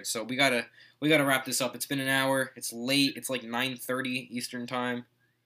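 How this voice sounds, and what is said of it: Tired, worn-out voice. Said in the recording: “my voice has been deteriorating throughout this podcast. I'm very tired. ... you sound tired.”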